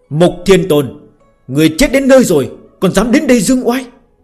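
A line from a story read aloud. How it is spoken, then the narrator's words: Majestic loud shout. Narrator (Vietnamese): Hạo Thiên Tôn uy phong lẫm liệt, thét lớn một tiếng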